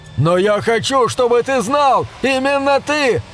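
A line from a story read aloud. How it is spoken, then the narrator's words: Desperate struggling scream. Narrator (Russian): отчаянно вопил Хэнк, вырываясь из рук своего патрона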